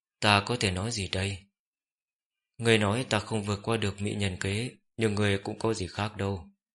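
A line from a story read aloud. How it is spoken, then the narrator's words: Sighing. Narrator (Vietnamese): Diệp Kinh Lan thở dài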